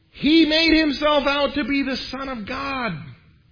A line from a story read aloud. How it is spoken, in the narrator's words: the Jewish leaders yelled out